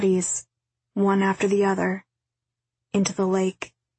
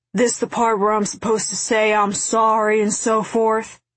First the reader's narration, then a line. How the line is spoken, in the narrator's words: he shouted at X